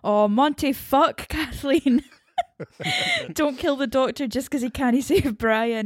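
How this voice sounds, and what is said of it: Strong Scottish accent. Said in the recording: “coaxing out ... more Scottish accent”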